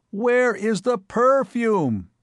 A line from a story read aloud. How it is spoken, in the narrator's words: bawled